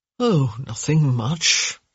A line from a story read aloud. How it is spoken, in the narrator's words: he murmured